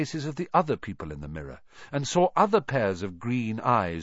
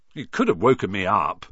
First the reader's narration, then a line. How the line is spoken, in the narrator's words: said Ron, crossly